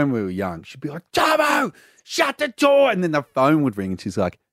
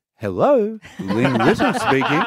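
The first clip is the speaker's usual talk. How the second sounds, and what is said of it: Mum's polite phone voice. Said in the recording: “her phone voice”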